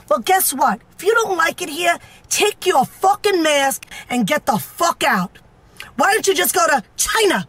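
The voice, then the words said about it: Staten Island accent. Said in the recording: “What is that, a Staten Island accent?”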